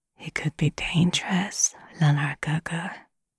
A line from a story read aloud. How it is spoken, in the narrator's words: he whispered in a low voice